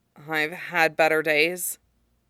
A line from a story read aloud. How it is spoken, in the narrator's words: Zuko said dryly